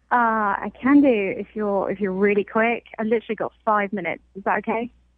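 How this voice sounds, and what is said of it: English accent. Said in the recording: “Do I detect a bit of an accent there? ... I'm from England originally.”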